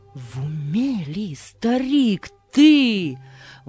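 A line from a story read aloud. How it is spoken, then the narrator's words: Exclaiming. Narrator (Russian): воскликнул прохожий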